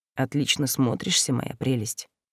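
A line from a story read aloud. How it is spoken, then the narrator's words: Quiet, close by. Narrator (Russian): тихо прозвучало прямо по духам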